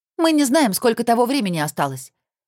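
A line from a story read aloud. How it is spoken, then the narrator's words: Sharp, curt. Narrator (Russian): резко бросила Алина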